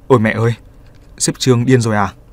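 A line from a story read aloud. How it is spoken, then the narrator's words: Slightly fearful. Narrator (Vietnamese): Trong lời nói của họ có chút sợ hãi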